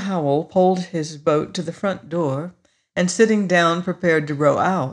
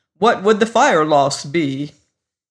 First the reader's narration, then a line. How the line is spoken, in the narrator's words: Holcomb snapped